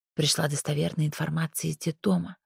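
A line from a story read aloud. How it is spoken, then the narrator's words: Whispered in ear. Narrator (Russian): шепнула ей на ухо Улька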